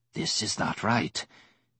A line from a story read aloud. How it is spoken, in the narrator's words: Tizar rasped quietly